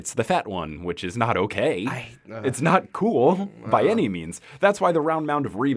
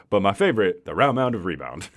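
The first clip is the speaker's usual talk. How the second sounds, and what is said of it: Bad Charles Barkley impression. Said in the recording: “That is a very bad Charles Barkley impression.”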